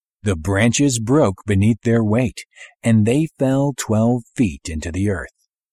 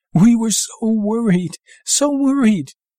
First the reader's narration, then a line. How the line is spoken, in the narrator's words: my mother sobbed